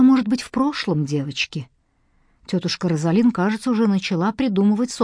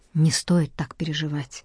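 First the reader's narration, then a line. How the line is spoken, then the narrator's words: Softly spoken. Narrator (Russian): мягко сказал лорд Гренвилл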